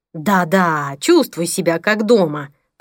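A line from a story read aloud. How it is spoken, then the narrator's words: Hissing. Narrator (Russian): прошипел Пол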